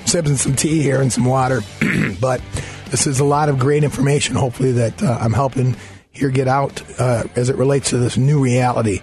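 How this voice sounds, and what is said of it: Hoarse, strained voice. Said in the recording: “We're going to struggle through this with my laryngitis.”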